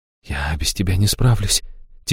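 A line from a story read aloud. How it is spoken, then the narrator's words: Quiet. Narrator (Russian): тихо проговорила Аштира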